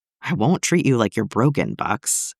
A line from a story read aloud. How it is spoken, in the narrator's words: Clint said, softly